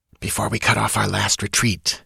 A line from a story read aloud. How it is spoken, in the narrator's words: hissed Taurus